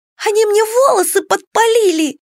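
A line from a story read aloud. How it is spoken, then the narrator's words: Shrill squeal. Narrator (Russian): взвизгнула Кикимора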